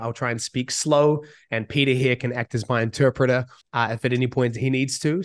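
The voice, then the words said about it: New Zealand accent, husky voice. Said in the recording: “I'm from New Zealand, so I have an accent and I'm slightly sick. So if there's kind of like a husky, sexy voice”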